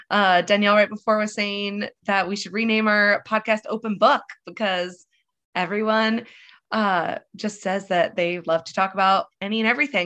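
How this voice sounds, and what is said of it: Nasal, congested voice. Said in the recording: “I have a cold. So if I sound nasally”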